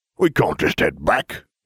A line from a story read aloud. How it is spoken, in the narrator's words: he snapped